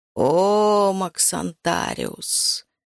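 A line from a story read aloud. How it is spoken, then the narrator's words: Sighing. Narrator (Russian): вздохнул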